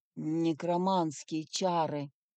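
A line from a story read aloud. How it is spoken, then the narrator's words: Muttering. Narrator (Russian): пробормотал Элиас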